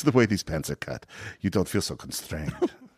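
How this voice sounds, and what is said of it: Put-on accent, not done well. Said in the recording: “Sorry, my accent is not good.”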